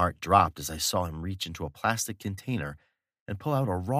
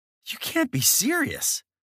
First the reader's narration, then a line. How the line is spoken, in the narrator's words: I exclaimed, much louder than I'd meant to